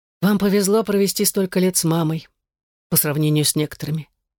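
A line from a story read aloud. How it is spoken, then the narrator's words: Soft. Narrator (Russian): мягко сказал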